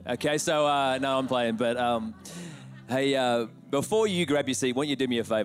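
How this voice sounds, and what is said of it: Thick Australian accent. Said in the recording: “my accent has got thicker back to Australian”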